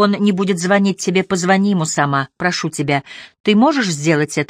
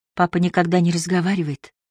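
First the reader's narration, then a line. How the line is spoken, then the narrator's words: Whispering. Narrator (Russian): прошептала она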